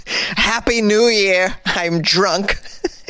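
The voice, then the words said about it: Bad Christopher Walken impression. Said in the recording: “This is the worst Christopher Walken impression ever.”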